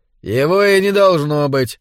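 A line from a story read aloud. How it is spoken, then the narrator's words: Calm. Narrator (Russian): спокойно заметил Эгерман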